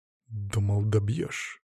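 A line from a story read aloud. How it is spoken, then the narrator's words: Through gritted teeth, close. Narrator (Russian): процедил я ему прямо в ухо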